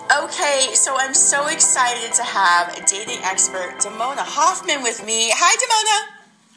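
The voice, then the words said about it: Yelling, loud voice. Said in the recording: “I don't know why I'm yelling. My instinct is always yell.”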